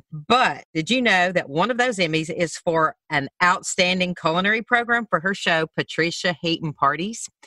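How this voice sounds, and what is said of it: Alabama Southern US accent. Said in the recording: “What's your accent? ... I'm from Alabama.”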